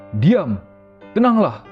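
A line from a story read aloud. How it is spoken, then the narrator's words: Stern rebuke. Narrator (Indonesian): Yesus menghardik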